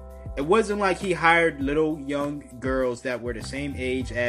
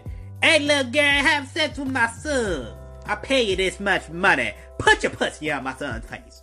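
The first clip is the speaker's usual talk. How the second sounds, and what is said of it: Imitates another person's voice. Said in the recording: “that Boosie impression”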